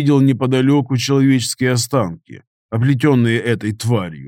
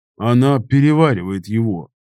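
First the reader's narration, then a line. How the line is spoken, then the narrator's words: Greek man, cold remark. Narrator (Russian): холодно заметил грек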